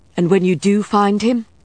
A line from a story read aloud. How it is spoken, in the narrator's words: Marcus said sharply